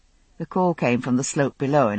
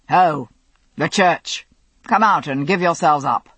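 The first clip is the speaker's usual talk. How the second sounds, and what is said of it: Strong English accent, shouted call. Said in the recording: “in a strong English voice.”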